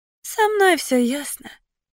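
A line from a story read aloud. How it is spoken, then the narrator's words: Resigned exhale. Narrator (Russian): выдохнула она обреченно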